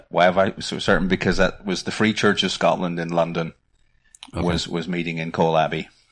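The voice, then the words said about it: Northern Irish accent. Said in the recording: “Don't lose your Northern Ireland accent.”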